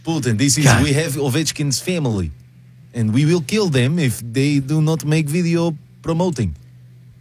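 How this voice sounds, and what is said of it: Putin impression, generic Russian accent. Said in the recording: “your Putin's better than your Trump ... it's also not Putin. It's just generic Russian.”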